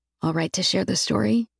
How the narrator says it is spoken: I lean toward him and whisper

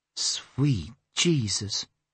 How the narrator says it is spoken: she whispered

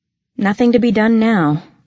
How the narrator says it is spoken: I sighed

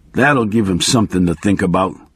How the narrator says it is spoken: he muttered

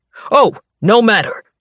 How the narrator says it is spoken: the scribe bellows

